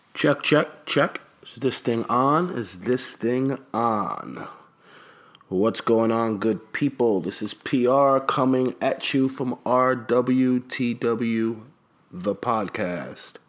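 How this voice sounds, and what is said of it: Raspy, strained lost voice. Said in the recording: “my voice sounds a little weird, a little funny, a little raspy, ... it's because I kind of lost my voice”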